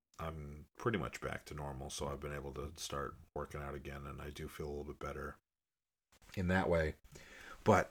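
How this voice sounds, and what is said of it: Slightly congested voice from a cold. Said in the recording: “because I had a cold, you probably can hear it in my voice a little bit”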